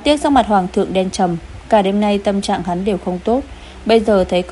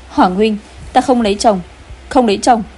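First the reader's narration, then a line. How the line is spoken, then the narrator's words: Shrill scream. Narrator (Vietnamese): Công chúa Tĩnh An thét chói tai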